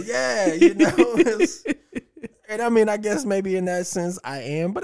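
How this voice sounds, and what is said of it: Usual voice. Nothing is said of it.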